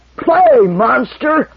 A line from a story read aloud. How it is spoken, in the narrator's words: roared the prince